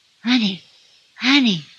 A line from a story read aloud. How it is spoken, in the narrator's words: whispered